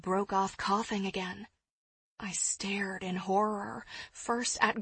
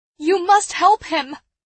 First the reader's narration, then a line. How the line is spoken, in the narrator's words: I cried